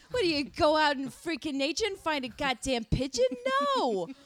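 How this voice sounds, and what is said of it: Put-on New York accent. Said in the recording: “Your accent pigeon definitely sounds good, New York.”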